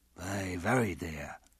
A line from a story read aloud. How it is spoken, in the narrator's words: Johnson mumbled